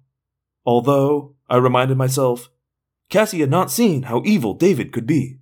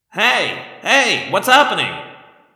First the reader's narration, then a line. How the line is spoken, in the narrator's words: Marco yelled